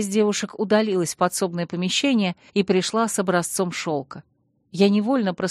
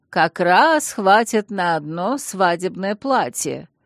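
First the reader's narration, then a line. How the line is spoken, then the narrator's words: Pleased drawl. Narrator (Russian): довольно протянула леди Вебстер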